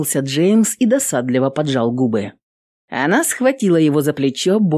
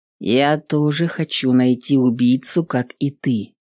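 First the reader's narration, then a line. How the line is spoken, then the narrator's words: Calm, coaxing. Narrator (Russian): спокойно произнес он, скорее уговаривая ее, как маленького ребенка, чем оправдываясь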